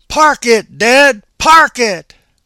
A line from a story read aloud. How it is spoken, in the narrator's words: he hollered at me